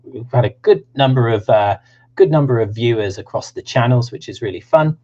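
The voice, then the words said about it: Southern English accent. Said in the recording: “if you like my Southern accent”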